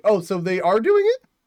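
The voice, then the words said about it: Voice squeaks. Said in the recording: “Why did my voice squeak?”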